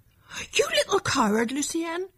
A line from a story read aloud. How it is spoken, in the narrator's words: exclaimed